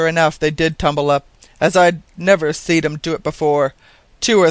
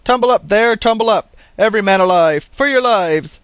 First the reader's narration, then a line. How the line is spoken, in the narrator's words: So the captain roars down the hatchway